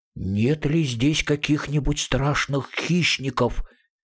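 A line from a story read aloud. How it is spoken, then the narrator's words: Frightened whisper. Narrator (Russian): Мумитроллю постепенно становилось все страшнее, и он шепотом спросил маму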